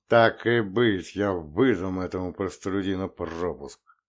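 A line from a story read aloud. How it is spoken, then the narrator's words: Angry hiss. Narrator (Russian): Словно тысяча рассерженных змей прошипел Теод Агаян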